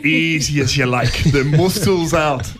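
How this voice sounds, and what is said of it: Attempted Irish accent. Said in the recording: “It's such a great accent, and I'm not doing it justice”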